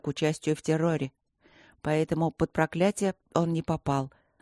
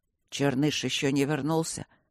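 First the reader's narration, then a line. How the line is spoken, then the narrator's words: Hoarse, strained voice. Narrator (Russian): спросил он севшим голосом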